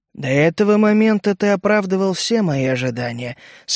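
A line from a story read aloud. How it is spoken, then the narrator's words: Even, slightly hissing. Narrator (Russian): сообщила она ровным, слегка шипящим голосом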